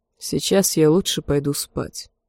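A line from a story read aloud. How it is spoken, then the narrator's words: Hoarse. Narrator (Russian): сказал он хрипло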